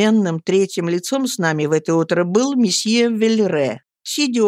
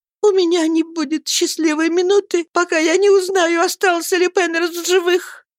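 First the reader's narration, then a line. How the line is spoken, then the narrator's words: Trembling voice. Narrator (Russian): Она даже дрожащим голосом сказала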